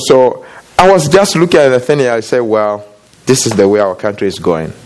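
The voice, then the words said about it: Foreign, non-American accent. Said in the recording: “he can tell by my accent that I'm not from here”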